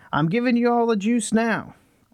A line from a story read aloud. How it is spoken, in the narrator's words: somebody yelled